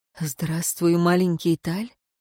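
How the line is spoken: Question after short sigh. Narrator (Russian): он, коротко вздохнув, спросил

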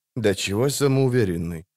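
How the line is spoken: Grumbled. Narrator (Russian): буркнул Кагыр Мильве

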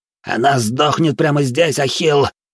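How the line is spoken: Breaking hiss. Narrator (Russian): срывающимся голосом прошипел бандит

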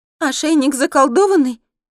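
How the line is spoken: Frightened squeal. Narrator (Russian): испуганно верещу я

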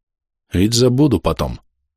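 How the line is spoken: Muttered. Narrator (Russian): пробормотал я

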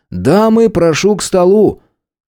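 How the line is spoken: Loud shout. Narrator (Russian): громко крикнул

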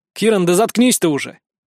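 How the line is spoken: Barked. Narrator (Russian): все-таки рявкнул я

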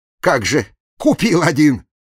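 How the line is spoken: Snapping retort. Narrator (Russian): огрызнулся Серегин

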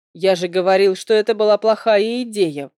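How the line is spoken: Grumbling. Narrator (Russian): ворчал вредный Нейн

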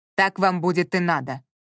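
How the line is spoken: Snapped. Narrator (Russian): огрызнулся Ворон

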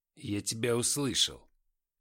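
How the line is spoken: Stern. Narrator (Russian): строго сказал Арбузин

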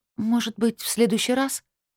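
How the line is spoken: Dejected voice. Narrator (Russian): упавшим голосом проговорила

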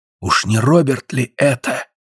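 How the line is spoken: Whisper. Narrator (Russian): прошептал Гленарван

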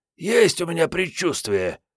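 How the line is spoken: Hoarse young woman. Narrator (Russian): прохрипела девица

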